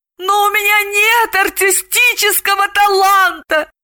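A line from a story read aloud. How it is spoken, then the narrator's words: Wailing. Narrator (Russian): взвыла Далила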